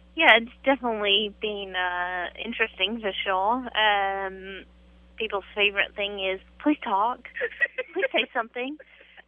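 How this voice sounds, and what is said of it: English accent. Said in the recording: “that English accent that you have there”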